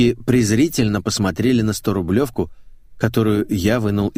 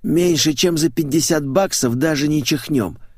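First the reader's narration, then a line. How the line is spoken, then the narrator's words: Hoarse. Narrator (Russian): прохрипела Рая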